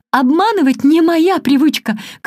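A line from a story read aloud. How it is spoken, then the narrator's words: Desperate piercing shout. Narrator (Russian): крикнула я отчаянным пронзительным голосом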